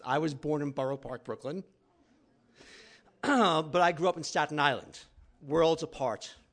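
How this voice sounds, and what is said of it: New York accent. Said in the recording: “I also have a New York accent”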